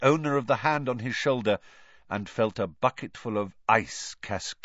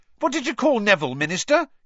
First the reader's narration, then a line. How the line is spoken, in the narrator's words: he said excitedly